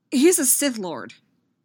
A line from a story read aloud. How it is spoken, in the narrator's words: Anakin blurted out